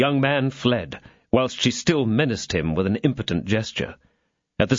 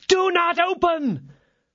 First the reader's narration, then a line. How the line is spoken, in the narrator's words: his mistress screamed from the window